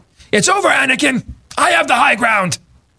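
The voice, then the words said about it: Imitation of Obi-Wan Kenobi's voice. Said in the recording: “That was actually a pretty good impersonation. Didn't that almost sound like him a little bit?”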